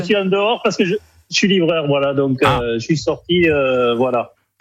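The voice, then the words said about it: Northern French accent. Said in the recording (French): “on avait remarqué cet accent du Nord, évidemment”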